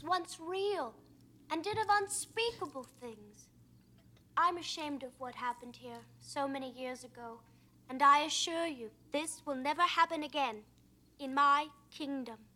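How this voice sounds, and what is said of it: High falsetto, lady-like voice. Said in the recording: “have such a lady voice? ... It sounds like a falsetto that he's doing.”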